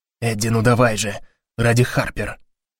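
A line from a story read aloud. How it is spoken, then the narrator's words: Whisper. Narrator (Russian): шепнул Гарри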